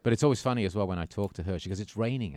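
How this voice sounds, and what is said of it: English accent. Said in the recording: “you might detect an accent ... I do have some family remaining over there”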